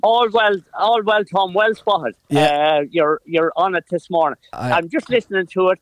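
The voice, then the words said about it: Distinctive regional accent. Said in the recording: “that accent”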